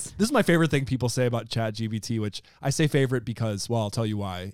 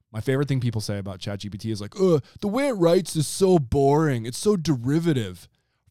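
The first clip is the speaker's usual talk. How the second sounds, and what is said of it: Sarcastic delivery. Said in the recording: “I'm being sarcastic, warning.”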